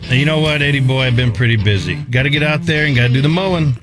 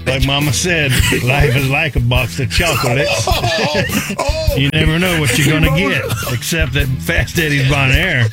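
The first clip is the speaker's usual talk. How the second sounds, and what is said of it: Forrest Gump character impression. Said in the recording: “my best Forrest Gump impression”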